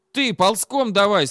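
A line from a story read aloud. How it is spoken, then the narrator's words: Excited shout, voice breaking. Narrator (Russian): срывающимся голосом закричал Сережик от волнения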